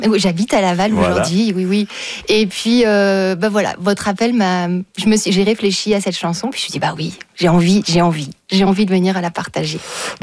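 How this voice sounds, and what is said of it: Slight unusual accent. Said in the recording (French): “j'ai un petit accent un peu particulier”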